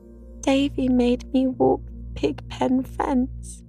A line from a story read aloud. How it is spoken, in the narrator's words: wailed Dora